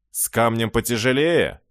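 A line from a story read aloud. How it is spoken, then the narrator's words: Snide. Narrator (Russian): ехидно продолжил обережник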